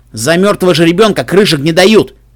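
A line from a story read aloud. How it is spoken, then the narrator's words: Snorting laughter. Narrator (Russian): Черный пони-рыботорговец фыркнул от смеха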